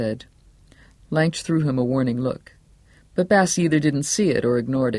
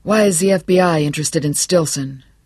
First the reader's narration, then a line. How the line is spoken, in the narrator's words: Johnny nearly barked the question